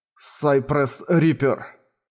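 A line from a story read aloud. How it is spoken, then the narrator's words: Muttering. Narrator (Russian): пробормотал Харуюки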